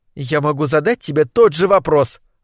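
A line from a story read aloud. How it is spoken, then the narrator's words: Snapped back. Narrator (Russian): огрызнулась Лилия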